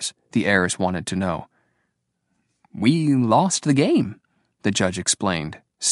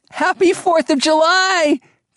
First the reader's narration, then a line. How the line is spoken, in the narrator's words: Turtle shouted